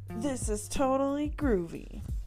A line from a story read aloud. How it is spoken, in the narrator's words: Pete the Cat cried